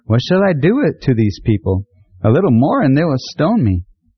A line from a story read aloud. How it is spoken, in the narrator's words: Moses cried out to the Lord, saying